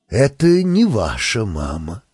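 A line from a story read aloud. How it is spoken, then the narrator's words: Sad astrologer. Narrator (Russian): сказал астролог Муслим печально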